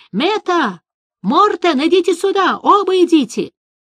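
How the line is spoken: Thunderous shout. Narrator (Russian): голосом, который мог бы заглушить рев бури, закричал

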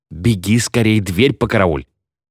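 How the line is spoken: Hiss. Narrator (Russian): прошипел

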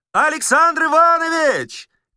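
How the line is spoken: Shouting through cupped hands. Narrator (Russian): крикнул Остап, сложив руки трубой

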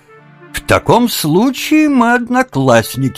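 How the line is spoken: Exclaimed. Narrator (Russian): воскликнул тот

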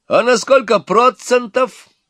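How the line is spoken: Cheerful young man shouting. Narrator (Russian): Опять выкрикнул веселый молодой человек, не злой

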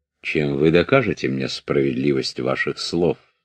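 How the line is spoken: Cold. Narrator (Russian): сказал Даву холодно

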